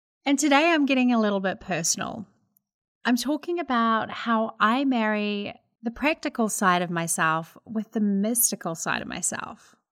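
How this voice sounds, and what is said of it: New Zealand accent. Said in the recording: “I'm a Kiwi living in America... that is where my accent is from”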